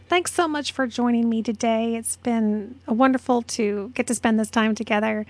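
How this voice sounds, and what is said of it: Voice sounds strained and unwell. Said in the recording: “Hopefully next week I'll be in a little better voice”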